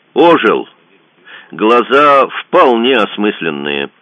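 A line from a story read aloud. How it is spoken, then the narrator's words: Loud report. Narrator (Russian): громко доложил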